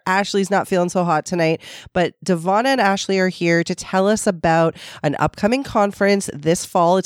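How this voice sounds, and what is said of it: Voice sounds a little sick. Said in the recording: “you can hear in my voice, I'm a little under the weather.”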